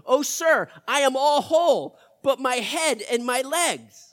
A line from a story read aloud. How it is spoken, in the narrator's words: The dead man opened his eyes and cried out to Welsh in 1600